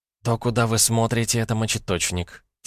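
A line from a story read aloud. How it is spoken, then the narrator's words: Quiet explanation. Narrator (Russian): тихо пояснила женщина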